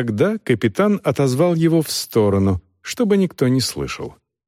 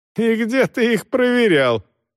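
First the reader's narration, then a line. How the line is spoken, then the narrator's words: Open laughter. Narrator (Russian): Роха откровенно смеялся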